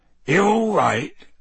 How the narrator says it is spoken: he said gruffly

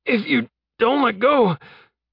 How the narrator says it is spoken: Jeb gasped

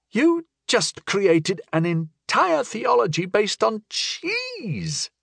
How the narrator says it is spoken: I gasped, in wonder and confusion

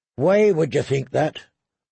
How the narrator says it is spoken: asked Lord Beric

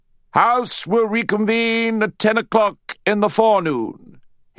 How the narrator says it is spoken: he bellowed

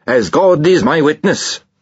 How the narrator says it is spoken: he bellowed

